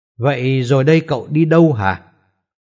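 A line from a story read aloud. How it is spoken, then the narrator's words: Bursting laughter. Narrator (Vietnamese): Anh ta nghe thế lại phá lên cười to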